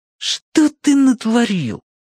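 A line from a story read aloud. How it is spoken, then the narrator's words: Shriek. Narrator (Russian): взвизгнул Глист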